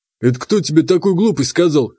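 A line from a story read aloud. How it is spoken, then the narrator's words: Scoffing explanation. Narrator (Russian): хмыкнул Вадим и пояснил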